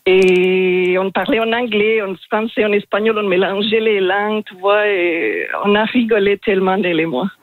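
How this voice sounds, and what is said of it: Strong foreign accent in French. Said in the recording (French): “Elle rigolait de mon français parce que j'ai un accent assez marqué ... Il est magnifique, cet accent”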